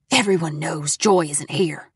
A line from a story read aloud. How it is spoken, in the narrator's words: the woman rasped